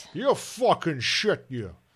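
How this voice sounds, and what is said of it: Sean Connery impression, Scottish accent. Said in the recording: “Sean Connery ... He's got an Irish accent now. Scottish accent.”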